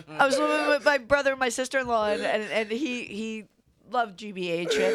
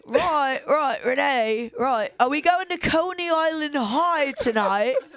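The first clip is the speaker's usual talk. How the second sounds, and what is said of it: Put-on English accent. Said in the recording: “an English accent.”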